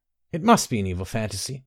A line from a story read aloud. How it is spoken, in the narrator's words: Olya murmured